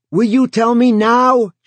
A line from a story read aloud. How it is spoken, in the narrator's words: Joe yelled